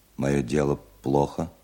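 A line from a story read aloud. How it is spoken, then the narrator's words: Calm, clear question. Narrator (Russian): спросил немец довольно спокойно и четко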